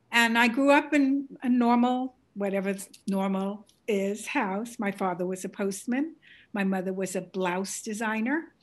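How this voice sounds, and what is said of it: Bronx accent. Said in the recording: “You will hear it in my accent. ... this is a Bronx accent, beautiful Bronx accent,”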